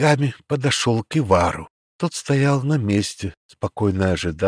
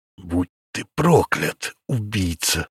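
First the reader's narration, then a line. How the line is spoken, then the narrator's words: Angry hiss. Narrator (Russian): гневно прошипел Арчил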